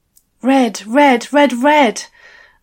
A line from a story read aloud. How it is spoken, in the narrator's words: I gasped